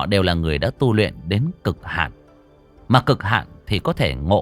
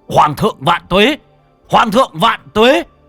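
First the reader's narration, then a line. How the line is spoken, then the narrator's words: Roaring army chant. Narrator (Vietnamese): Đại quân gào thét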